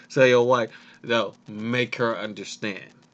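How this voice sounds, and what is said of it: Imitates another person's voice. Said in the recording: “in my Roman Reigns voice”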